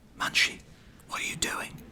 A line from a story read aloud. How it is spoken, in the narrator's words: Then he asked me in a whisper